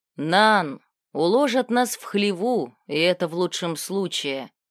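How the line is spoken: Smiling. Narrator (Russian): Отис улыбнулся

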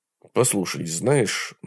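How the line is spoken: Mumbling. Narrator (Russian): начал бормотать он

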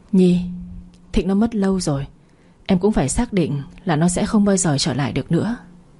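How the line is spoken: With a heavy sigh. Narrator (Vietnamese): Phong nặng nề thở dài một hơi

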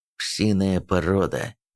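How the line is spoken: Angry, through gritted teeth. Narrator (Russian): озлобленно процедил

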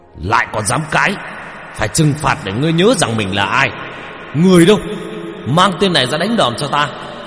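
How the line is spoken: Official hissing angrily. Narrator (Vietnamese): Ông quan lại đập bàn mà rít lên

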